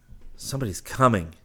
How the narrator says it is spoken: he gasped

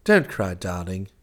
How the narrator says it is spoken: he said soothingly

